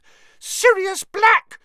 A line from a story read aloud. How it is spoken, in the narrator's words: she shrieked